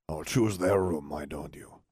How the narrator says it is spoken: Salazar grumbled

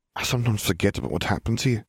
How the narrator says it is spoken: she sighed

